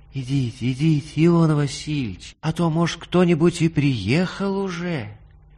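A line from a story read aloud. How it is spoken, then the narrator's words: After a short moan. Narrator (Russian): Татьяна Михайловна коротко простонала и сказала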